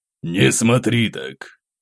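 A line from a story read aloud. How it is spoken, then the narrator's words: Wry snort. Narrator (Russian): хмыкнул князь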